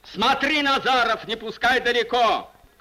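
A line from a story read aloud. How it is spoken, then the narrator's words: Commander shouting. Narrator (Russian): крикнул воинский начальник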